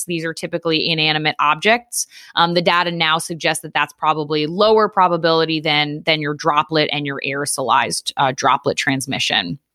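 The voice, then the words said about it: Strong New York-area American accent. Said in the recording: “your accent is off the charts right now ... a combination of Connecticut, Long Island, New York City, and now Philly ... I'm a blend now”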